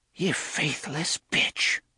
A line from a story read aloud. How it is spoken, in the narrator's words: Cordelia whispered